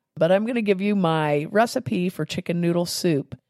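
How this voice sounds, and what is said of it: Sick, congested-sounding voice. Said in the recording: “Today I have a cold ... my voice sounds bad”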